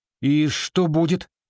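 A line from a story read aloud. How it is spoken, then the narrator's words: Frightened question. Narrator (Russian): испуганно поинтересовался Джейсон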